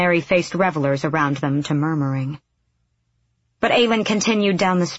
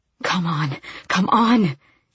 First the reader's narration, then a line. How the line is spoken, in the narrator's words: she panted